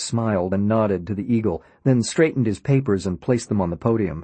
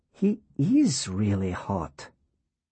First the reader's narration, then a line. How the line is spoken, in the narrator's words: Laura whispered